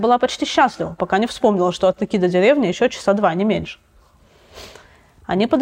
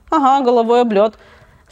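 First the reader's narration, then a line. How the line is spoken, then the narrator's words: Relieved laughter. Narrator (Russian): с облегчением засмеялась Катя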